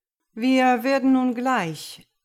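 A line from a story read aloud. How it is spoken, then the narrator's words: Announced somewhat tiredly. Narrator (German): gab Ripkis etwas müde kund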